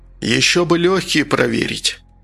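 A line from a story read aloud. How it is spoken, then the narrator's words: Uncertain, sudden. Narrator (Russian): Штук неуверенно пожал плечами, а потом вдруг сказал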